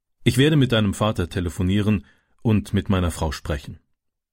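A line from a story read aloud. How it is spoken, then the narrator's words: Plain. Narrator (German): sagte der Bauer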